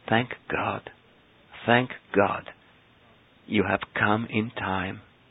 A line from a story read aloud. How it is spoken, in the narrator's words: they kept murmuring